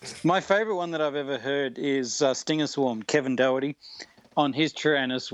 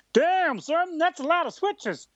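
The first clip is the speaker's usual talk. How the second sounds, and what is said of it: Put-on Southern hick accent. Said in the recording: “a guy in like this southern hick accent”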